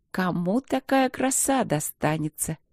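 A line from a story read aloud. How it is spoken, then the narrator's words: Careless purr. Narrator (Russian): неосмотрительно мурлыкнула я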